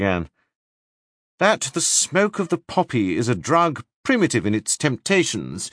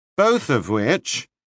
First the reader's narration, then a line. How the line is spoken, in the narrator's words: he added with a cynical accent